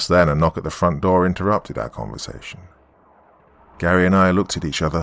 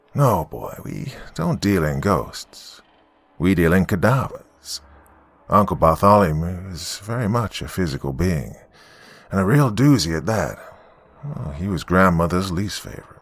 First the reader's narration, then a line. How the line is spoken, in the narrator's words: calmly replied